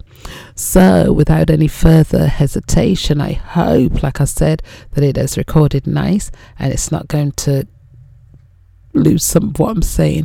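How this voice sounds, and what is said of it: Strained, not fully recovered voice. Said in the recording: “my voice hasn't really recovered from last week”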